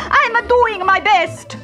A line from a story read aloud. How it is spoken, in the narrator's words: snapped Victor